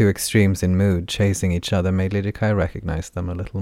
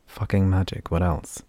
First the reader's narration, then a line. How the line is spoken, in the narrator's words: muttered